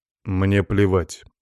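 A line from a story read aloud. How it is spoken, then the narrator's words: Cold reply. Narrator (Russian): холодным тоном ответил я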